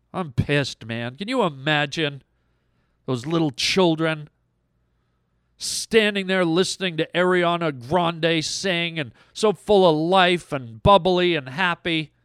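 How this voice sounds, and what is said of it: Angry voice. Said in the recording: “I'm angry. You can hear it in my voice.”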